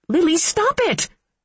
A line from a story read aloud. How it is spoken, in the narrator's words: She shrieked